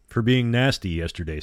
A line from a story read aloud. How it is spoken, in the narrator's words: said Becky